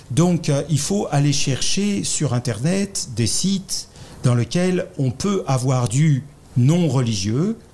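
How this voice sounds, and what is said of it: French accent from France. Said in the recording (French): “vous l'avez reconnu à mon accent, je suis français là.”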